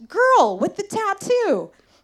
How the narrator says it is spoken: someone on the street yelled

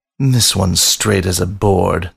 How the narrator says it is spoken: the panther sneered

